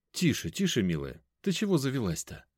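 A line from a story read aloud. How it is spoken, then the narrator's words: Calm smiling question. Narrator (Russian): Спокойно улыбнувшись, спросил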